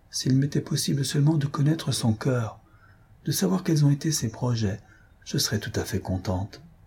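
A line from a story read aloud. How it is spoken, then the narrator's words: Low voice. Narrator (French): ajouta d'une voix basse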